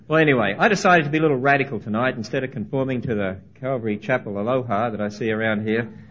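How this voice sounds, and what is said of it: Speaks with a noticeable foreign accent. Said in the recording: “I do hope I still have an accent, although I didn't have one until we came here ... you've got to get used to my accent”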